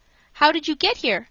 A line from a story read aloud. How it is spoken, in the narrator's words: I asked